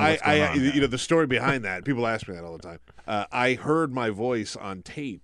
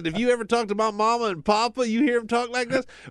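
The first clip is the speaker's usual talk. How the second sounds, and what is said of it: Thick Southern accent. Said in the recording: “I had a real thick Southern accent talking like this.”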